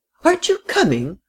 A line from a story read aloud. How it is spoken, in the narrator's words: cried the frail, excitable little lady